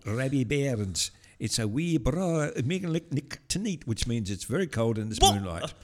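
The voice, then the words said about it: Unconvincing put-on Scottish accent. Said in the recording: “What accent was that? That was not even Scottish.”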